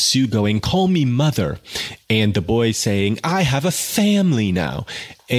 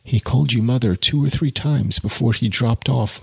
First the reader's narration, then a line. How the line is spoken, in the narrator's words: murmured Jude